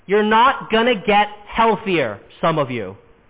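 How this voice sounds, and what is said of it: Louder, emphatic speech. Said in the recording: “let me say that louder.”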